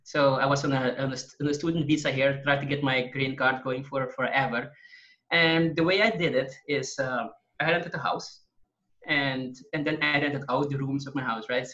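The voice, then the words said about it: Foreign accent. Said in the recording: “I am international. You can probably hear from my accent.”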